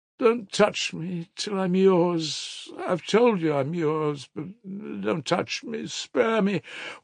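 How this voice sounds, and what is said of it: Faltering, imploring voice. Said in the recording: “she faltered in an imploring voice”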